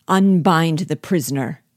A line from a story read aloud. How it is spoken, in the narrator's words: cried Bug Jargal